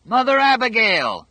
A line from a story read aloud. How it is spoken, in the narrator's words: Dick roared over the motors